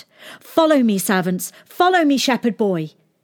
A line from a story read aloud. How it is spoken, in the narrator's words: she shouted